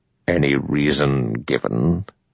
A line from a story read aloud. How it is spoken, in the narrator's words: Bloor said bitterly, Mrs